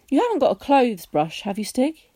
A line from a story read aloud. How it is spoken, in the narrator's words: he asked